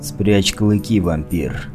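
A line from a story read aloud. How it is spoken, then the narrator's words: Low muffled growl. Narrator (Russian): Глухо прорычал я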